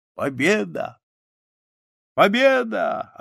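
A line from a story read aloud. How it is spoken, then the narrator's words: Drunken laughing speech. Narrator (Russian): Напившись, Петр засмеялся и сказал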